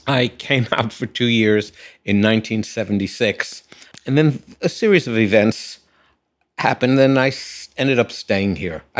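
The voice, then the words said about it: Non-local accent. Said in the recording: “I'm not hearing a local accent.”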